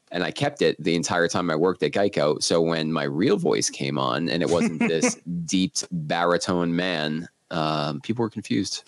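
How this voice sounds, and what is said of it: Deep, slightly phlegmy voice. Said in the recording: “you've got like that just the right amount of phlegm that makes your voice a little deeper, a little sexier ... It's going to be a good radio voice.”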